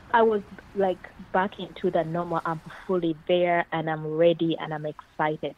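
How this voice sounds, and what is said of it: Ugandan English accent. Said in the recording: “her beautiful accent, originally from Uganda”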